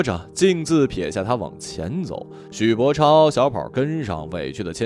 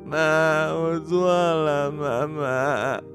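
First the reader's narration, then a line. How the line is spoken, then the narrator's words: Wailing cry. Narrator (Chinese): 许博超哇的一声哭了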